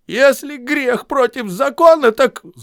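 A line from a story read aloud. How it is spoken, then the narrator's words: Shout. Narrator (Russian): Губин крикнул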